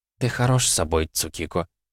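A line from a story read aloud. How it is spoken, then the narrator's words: Said quietly. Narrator (Russian): тихо произнесла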